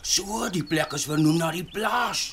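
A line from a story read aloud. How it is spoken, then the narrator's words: Excited. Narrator (Afrikaans): sê Sias opgewonde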